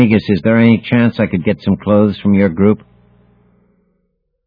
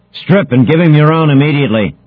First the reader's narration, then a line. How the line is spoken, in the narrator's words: bellowed the Trojan commander